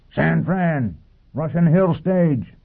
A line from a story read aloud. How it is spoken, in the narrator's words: roared over his shoulder